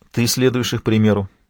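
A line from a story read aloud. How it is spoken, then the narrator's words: Gentle remark. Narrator (Russian): мягко заметила Суат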